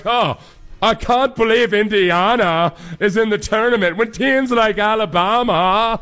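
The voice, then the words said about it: Put-on mocking accent. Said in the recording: “You need to use that accent more.”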